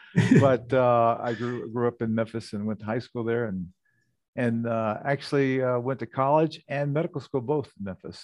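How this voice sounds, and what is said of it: Southern Memphis accent. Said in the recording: “we can tell a little bit by the accent. You know, you lived in Minnesota a long time, but you, some things you just can't kick them all to the curb.”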